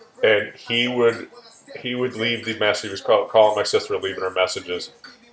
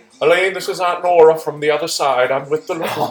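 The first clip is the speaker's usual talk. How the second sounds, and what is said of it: Old woman's heavy Irish brogue. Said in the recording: “small little Irish woman, heavy Irish accent, Irish brogue”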